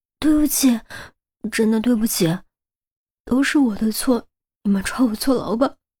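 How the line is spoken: Frightened trembling voice. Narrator (Chinese): 那恐怖的小丑面具吓得他全身绷紧，颤声道

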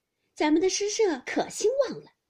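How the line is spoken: Cheerful, smiling. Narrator (Chinese): 探春也笑着进来找宝玉，因说道

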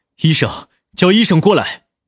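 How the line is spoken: Roaring. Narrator (Chinese): 吼道

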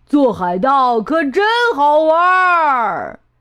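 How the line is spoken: Pirates shouting. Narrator (Chinese): 这帮海盗呼喊着

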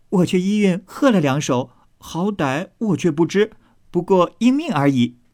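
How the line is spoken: Eager, laughing. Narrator (Chinese): 史湘云一心兴头，先笑说道

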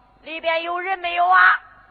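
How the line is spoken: Shouting. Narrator (Chinese): 他这一喊

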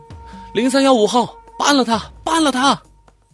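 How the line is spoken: Several women shouting loudly. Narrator (Chinese): 有几个女犯人大声喊道

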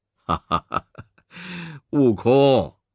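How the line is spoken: Chuckling cheerfully. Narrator (Chinese): 弥勒佛嘻嘻笑着说

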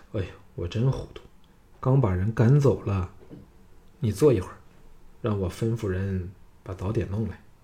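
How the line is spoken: Sighing. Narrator (Chinese): 玄佑 叹道

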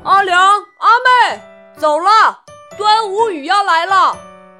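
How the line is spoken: Calling out. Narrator (Chinese): 满就喊道

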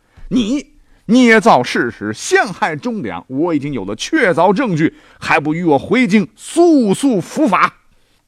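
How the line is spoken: Stern, harsh. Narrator (Chinese): 梁光带着几个差役回来，厉声对乔人说道

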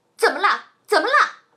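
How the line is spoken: Worried shouting. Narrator (Chinese): 一定会非常担心，大声的叫

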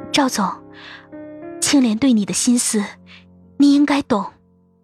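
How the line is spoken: Guilty soft voice. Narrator (Chinese): 愧疚让我的心难以平复，片刻，小声说着

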